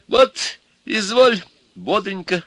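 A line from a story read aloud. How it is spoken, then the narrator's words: Giggling old man. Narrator (Russian): заговорил старичок, хихикая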